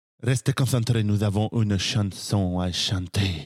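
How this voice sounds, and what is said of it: Consistent put-on Spanish accent. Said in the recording (French): “Tu le fais trop bien. ... C'est un accent euh, hispanisant consistant. ... un accent espagnol.”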